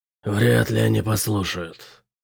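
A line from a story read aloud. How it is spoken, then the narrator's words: Growled. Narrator (Russian): прорычал Бэтрим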